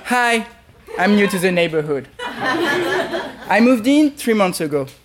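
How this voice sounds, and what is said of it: French accent. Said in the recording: “I am French. ... I'm sorry for my French boy accent.”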